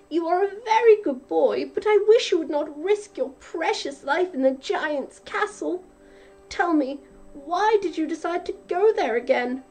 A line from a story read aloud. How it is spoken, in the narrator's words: cried his mother